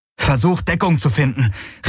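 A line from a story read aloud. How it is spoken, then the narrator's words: Calling out. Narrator (German): rief Garland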